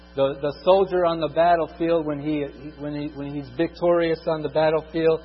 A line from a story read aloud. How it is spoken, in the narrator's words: he screams out